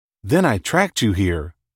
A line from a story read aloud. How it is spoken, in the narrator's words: she added, her voice returning to normal